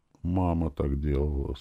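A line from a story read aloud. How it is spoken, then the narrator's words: Quiet. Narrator (Russian): сказала она тихо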